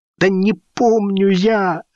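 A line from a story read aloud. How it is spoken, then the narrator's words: Whining. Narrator (Russian): заскулил парень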